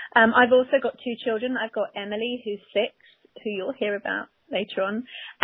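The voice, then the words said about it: English accent. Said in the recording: “I probably can tell from my accent I'm originally from England”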